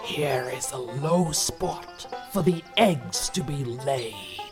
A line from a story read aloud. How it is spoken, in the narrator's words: growled the wolf